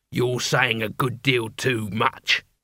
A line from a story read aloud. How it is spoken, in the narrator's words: growled the leader